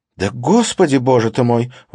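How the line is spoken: Exclamation trembling with rage. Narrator (Russian): воскликнула Катрина, и голос ее задрожал от ярости

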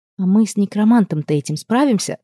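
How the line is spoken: Very quiet question. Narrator (Russian): спросила я тихо-тихо, так, чтобы возможные свидетели совершенно точно ничего не услышали

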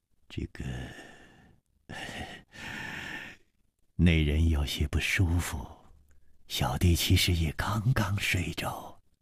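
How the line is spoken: Sighing. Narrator (Chinese): 李玉涵也叹了一口气说

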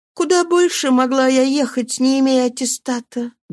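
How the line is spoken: Sad reply. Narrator (Russian): грустно ответила Мерси

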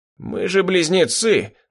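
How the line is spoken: Pleased snort. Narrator (Russian): довольно хмыкнул Калиб

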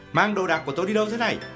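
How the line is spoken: Angry shout. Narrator (Vietnamese): Khái quát lên

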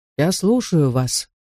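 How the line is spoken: Calm, quiet reply. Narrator (Russian): спокойно и тихо отозвался негр

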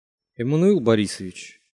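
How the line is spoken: Startled mutter. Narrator (Russian): Вздрогнув, пробормотал Симоген

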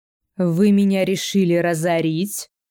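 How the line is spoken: Angry growl. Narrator (Russian): Злобно рычу я

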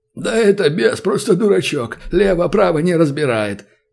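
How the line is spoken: Laughing orc. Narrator (Russian): захохотал орк

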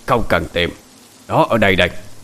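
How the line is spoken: Shout. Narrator (Vietnamese): có một tiếng nói quát lên

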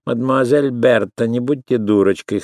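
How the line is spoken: Loud laughing. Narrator (Russian): хохотала Валерия

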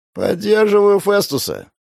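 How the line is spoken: Creaky voice. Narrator (Russian): проскрипел он

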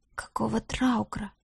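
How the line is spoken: Uneasy whisper. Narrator (Russian): прошептал некромант, чувствуя неладное

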